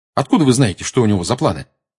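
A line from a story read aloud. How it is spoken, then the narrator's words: Quick question. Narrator (Russian): быстро спросил Гарри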